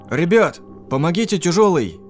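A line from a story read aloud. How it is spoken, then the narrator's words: Shouting. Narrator (Russian): Крикнул наш коллега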